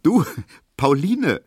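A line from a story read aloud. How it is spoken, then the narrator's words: Laughing call. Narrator (German): rief Emil Kubinke lachend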